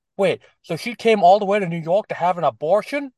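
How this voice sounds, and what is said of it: Exaggerated New York accent. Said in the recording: “the most over-the-top New York accent I've ever heard in a mainstream television show ... no one here actually talks like that”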